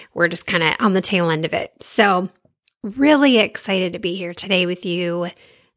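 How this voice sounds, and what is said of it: Slightly off, sick-sounding voice. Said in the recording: “my voice sounds a little funky ... on the tail end of COVID”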